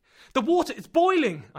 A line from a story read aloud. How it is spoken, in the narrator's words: I shouted